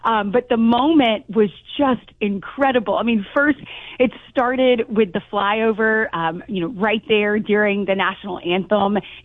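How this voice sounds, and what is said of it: Hoarse, strained voice. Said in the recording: “you can tell I've kind of lost my voice because I was so into it”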